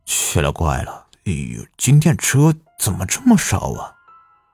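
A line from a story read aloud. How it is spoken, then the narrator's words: Puzzled mutter. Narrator (Chinese): 赵强 心里不由得奇怪，忍不住的嘟囔道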